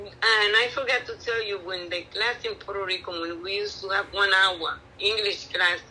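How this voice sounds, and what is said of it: Non-native English accent. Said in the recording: “You like my accent. My accent is very popular now.”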